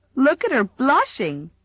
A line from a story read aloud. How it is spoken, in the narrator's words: giggled Mamie Taylor